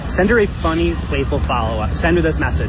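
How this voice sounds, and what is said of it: Very thick American accent. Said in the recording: “It's the thickest American accent you've ever heard in your entire life.”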